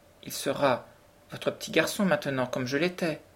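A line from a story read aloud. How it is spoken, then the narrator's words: Trembling voice. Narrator (French): dit-il d'une voix tremblante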